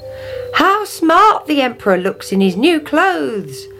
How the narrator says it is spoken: they cried

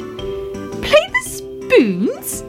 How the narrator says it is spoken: cried Fuzzy Ted

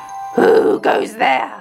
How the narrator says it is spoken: roared the troll

